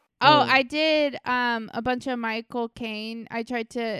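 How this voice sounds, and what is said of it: Usual voice. Nothing is said of it.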